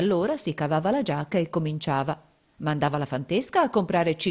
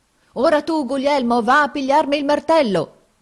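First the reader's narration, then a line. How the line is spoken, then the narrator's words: Shouted. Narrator (Italian): gridava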